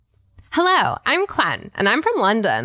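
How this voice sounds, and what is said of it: Put-on British accent. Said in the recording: “I can actually do a British accent”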